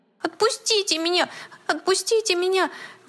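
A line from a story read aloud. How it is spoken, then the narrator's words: Desperate squeal, teddy bear. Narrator (Russian): в отчаянии взвизгнул плюшевый мишка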